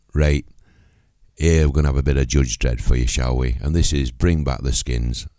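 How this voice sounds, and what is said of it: Deeper voice than usual, ill. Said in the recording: “My voice is completely deeper than it usually is, and I've also got a chest infection”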